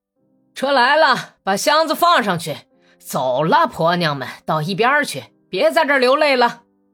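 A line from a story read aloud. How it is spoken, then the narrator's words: Shouting. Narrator (Chinese): 民警在大门口喊道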